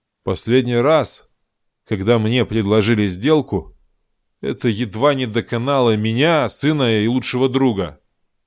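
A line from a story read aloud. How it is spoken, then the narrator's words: Gloomy conclusion. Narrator (Russian): мрачно заключил Таран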